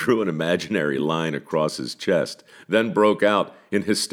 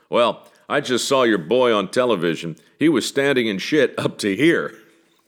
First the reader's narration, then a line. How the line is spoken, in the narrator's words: The elderly gentleman applied his brake and lurched to his feet, saying in a gruff, booming voice